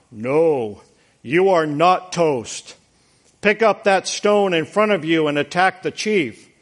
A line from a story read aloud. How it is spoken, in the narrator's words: a voice booms out